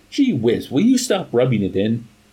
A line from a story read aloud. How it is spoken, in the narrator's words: Colonel Cathcart cried